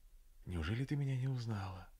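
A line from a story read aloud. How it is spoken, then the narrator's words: Quiet question, young man. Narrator (Russian): молодой человек тихонько спросил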